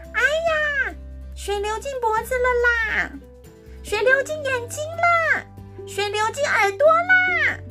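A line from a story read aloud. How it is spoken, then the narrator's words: Loud yelling. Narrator (Chinese): 只要洗头发，他就会大叫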